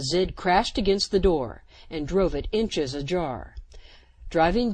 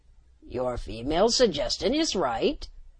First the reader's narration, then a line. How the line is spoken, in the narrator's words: the Cerimian croaked